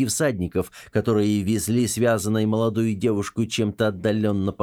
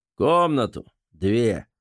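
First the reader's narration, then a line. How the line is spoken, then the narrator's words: Hoarse. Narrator (Russian): хрипло произнес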